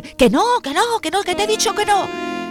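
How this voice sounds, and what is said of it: Shouting angrily. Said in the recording (Spanish): “¿Por qué gritas?”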